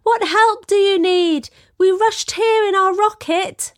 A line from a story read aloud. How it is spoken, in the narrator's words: Chris ran to him, shouting